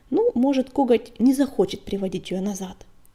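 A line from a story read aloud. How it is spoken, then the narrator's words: Quiet. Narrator (Russian): тихо сказал Огонек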